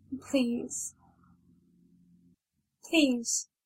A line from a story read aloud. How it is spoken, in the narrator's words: she whimpered, lips trembling